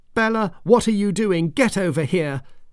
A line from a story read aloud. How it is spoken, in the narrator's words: Her mum kept shouting